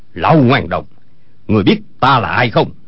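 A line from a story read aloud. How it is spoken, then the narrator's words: Shouted. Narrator (Vietnamese): Âu Dương Phong quát lên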